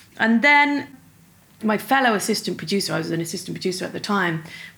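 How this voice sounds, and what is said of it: Dublin accent. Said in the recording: “my Dublin accent”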